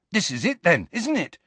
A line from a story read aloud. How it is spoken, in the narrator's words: said Ron excitedly